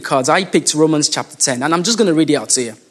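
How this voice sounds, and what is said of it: Accent that adds and drops H's. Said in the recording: “sometimes I might add H's to some of my words and I drop H's to some of my words, it's just my accent”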